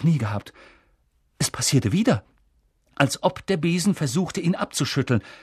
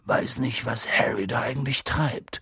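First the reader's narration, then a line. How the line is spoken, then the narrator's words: Murmured. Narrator (German): murmelte Hagrid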